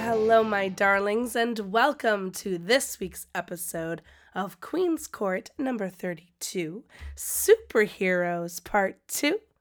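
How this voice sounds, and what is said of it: Sick, strained voice. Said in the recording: “As you can hear, my voice is not really doing so hot. I think I'm getting sick”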